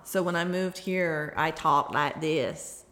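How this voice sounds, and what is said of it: Southern US accent. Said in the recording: “kids that were here don't have that southern accent”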